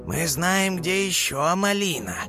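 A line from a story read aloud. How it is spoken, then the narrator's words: Drawling. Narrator (Russian): протянул Спайк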